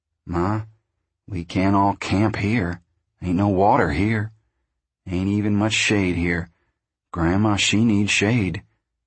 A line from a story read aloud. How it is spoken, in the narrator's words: Tom said soothingly